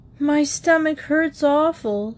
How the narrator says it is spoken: he moaned

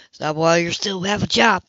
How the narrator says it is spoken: Peter muttered

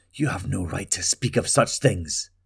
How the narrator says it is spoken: Talgo hissed

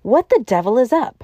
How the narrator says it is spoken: cried the professor

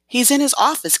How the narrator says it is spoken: Cleo responded nervously

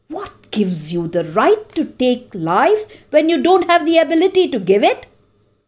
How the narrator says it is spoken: Parvati yelled, unable to calm down

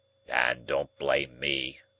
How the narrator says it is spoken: growled the convict

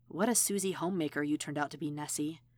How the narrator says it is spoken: she muttered

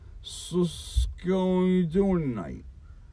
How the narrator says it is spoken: Half blacked out, Harley slurred the question

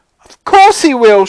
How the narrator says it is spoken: shrieked Mrs

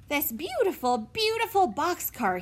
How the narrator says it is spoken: exclaimed

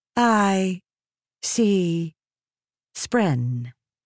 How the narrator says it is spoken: Eshonai said, speaking slowly and deliberately, as her accent was sometimes bad

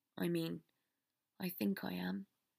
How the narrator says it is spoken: he said more softly

